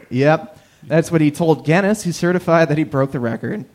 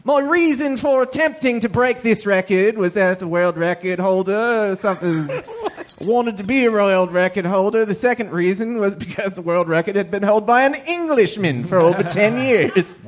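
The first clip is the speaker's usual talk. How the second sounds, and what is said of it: Poor imitation Australian accent. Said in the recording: “I'm going to do it in a perfect Australian accent ... the worst Australian accent I've ever heard”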